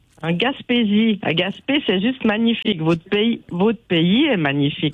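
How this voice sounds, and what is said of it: Speaks with a noticeable accent. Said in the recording (French): “j'aime l'accent.”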